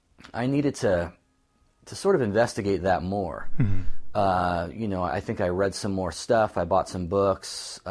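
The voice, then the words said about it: Slightly hoarse voice. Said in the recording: “my voice is a bit hoarse today”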